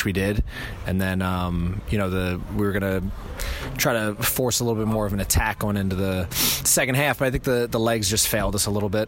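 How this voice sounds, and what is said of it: New York accent. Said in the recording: “your lovely New York accent”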